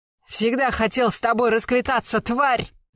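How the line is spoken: Frantic yelling. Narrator (Russian): заорал он заполошно

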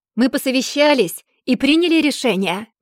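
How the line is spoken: Shouting. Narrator (Russian): прокричал Дан

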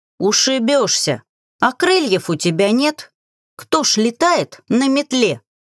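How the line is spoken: Grimoire's indignant exclamation. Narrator (Russian): Возмущенно воскликнул гримуар

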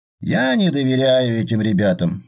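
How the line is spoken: Gloomy explanation. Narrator (Russian): мрачно пояснил Пурлиев

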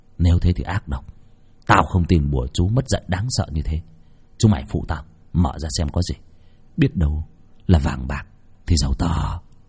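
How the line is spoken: Muttering. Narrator (Vietnamese): Việt lẩm bẩm

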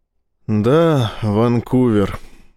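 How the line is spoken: Sighing. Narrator (Russian): вздохнул Рашин

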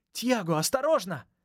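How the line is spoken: Girl's cry. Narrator (Russian): вскрикнул девчачий голос

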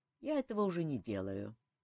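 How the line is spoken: Sad sigh. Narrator (Russian): печально вздохнул Элмар

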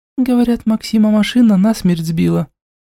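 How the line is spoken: Tense whisper. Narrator (Russian): напряженным тоном шепнула Дэю

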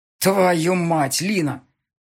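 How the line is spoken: Growling into phone. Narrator (Russian): прорычал он в трубку

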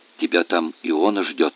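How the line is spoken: Whisper. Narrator (Russian): шепнул Федя отцу

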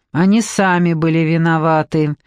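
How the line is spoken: Cold. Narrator (Russian): холодно произнес мужчина с бородкой

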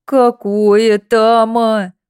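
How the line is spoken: Groaning. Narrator (Russian): простонал запечник

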